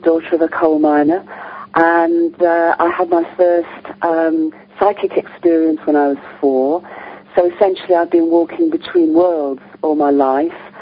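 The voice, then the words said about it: English British accent. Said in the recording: “as you probably can gather from the accent ... I'm English, I'm British.”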